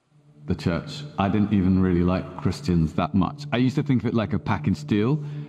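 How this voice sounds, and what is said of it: European or South African accent. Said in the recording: “he's either from Europe or South Africa... he has definitely a different accent”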